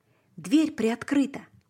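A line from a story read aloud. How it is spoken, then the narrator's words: Whispered reply. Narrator (Russian): прошептал в ответ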